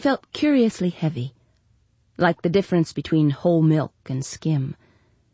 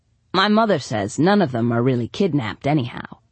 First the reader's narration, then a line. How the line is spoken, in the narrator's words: said Pete